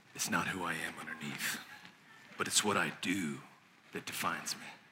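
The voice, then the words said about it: Impression of a superhero's voice. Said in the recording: “I heard a superhero say one time, I'll do my best voice”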